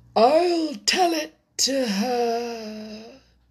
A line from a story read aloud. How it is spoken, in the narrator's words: said the Mock Turtle in a deep, hollow tone